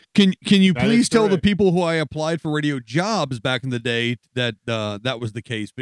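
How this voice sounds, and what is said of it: Classic radio announcer voice. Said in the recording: “you have probably the most radio voice I think I've heard on any podcast show I listen to”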